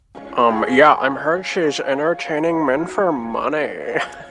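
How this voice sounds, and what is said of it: Impression of a Bachelor contestant. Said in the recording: “doing an impression of Anna spreading around some rumors”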